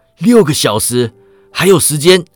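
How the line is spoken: Called out. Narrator (Chinese): 他叫道

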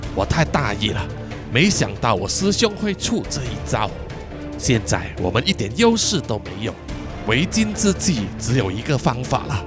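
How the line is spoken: Panting, breathless. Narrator (Chinese): 凯气喘吁吁的说

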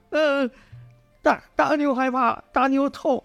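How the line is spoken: Loud wailing. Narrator (Chinese): 大牛大哭道

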